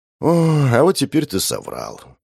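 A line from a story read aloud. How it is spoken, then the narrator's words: Heavy sigh. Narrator (Russian): тяжело вздохнул я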